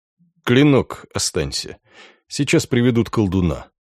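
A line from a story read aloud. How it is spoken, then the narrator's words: Tired. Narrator (Russian): устало произнес Шпренгер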